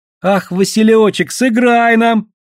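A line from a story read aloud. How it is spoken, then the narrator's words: Squealing girls, laughing. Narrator (Russian): завизжали старшие девушки, с хохотом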